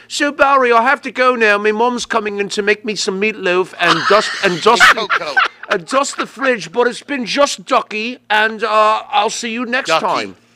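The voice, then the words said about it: Put-on English accent. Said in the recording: “You can't do the English accent.”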